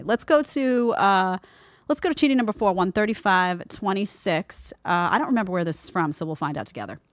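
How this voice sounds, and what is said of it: Strong Brooklyn accent. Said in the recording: “my Brooklyn accent is coming on stronger and stronger in the show ... the Brooklyn comes out”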